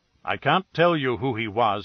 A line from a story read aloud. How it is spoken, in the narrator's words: he said